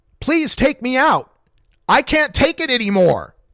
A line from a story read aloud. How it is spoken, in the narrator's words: Darren Rainey screamed